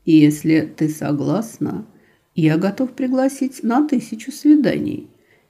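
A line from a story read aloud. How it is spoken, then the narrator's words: Tender whisper. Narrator (Russian): нежно прошептал он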